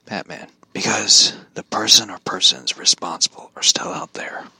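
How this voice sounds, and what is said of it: Batman character voice. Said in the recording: “I can't do the bad voice that long”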